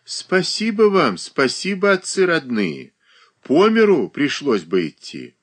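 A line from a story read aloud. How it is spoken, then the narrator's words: Sighing. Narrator (Russian): вздохнула Варвара Ивановна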